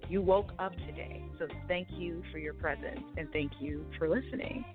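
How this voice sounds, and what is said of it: Smooth radio announcer voice. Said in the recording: “You got the radio voice ... you do all the voiceover ... That's why you got that voice”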